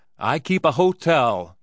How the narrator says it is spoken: he shouted

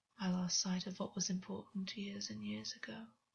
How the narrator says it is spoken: said under his breath, swallowed as though it was painful

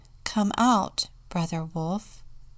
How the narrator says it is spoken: called calmly in the wolf's language

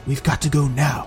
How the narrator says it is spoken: commanded General Didier in a hushed voice

